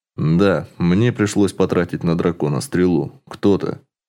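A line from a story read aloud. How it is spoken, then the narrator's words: Cold voice. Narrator (Russian): Темный эльф холодным голосом ответил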